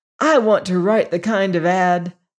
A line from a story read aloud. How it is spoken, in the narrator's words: Jock was saying excitedly